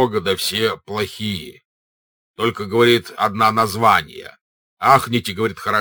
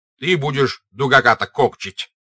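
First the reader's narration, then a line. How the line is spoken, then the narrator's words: Stern. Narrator (Russian): сказал Денисов строго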